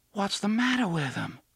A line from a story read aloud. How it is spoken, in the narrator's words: Susanna asked in a soft, horrified voice